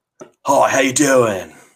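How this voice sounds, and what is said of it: Bad celebrity impression, Australian-sounding. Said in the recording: “Oh, wow, that was bad. ... Why does he have an Australian accent?”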